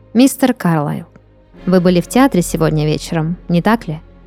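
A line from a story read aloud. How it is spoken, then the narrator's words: Calm question. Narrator (Russian): спокойно спросила Лай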